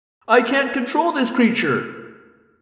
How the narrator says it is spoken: Axe wailed

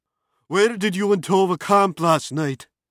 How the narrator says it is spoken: Colborne yelled

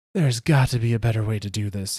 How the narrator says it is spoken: he gasps

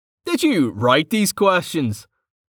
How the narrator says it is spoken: Vanna laughed

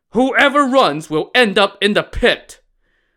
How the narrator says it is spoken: Lu Zhixian roared

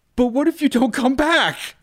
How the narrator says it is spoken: Sarah screamed

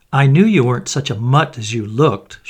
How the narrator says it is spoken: she cried

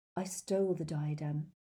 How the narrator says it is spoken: repeated Helena Ravenclaw in a whisper

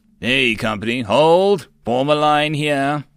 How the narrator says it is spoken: Company commander roared

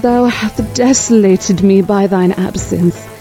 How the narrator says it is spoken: my lady cried

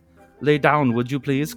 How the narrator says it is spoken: Clarissa says with a German accent

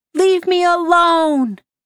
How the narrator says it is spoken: Blake shouted out

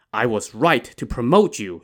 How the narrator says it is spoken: he said

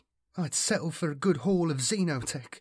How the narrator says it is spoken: murmured Jill

